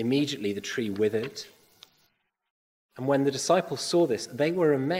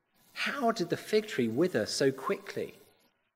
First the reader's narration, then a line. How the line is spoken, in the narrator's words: they asked